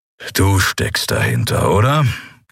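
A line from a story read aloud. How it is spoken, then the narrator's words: Growling. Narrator (German): knurrte Keru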